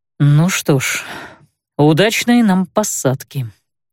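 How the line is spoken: Defiant, through gritted teeth. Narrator (Russian): сквозь зубы, словно бросая кому-то вызов, процедил

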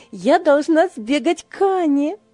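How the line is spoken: Exclaiming. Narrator (Russian): воскликнула Ева

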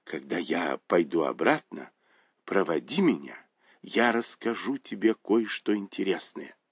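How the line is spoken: Whisper. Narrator (Russian): Дзя Юнь шепнул ей

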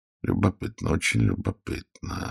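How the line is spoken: Quiet. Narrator (Russian): сказал он негромко

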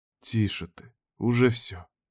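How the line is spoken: Gentle. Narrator (Russian): мягко сказал Вильхард

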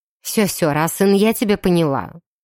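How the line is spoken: Irritated lady interrupting. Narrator (Russian): раздраженно перебила дама

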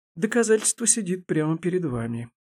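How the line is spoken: Sighing. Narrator (Russian): вздохнула Елизавета Семеновна

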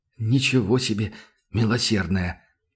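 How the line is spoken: Hoarse croak. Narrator (Russian): прохрипел Сашка

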